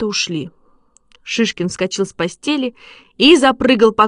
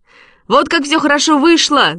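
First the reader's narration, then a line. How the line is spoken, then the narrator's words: Shout. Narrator (Russian): закричал он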